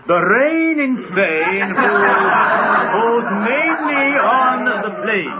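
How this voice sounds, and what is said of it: Posh English accent. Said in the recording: “you chaps are fascinated by the English accents.”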